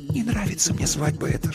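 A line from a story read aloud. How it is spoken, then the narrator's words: Whispered. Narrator (Russian): шепнула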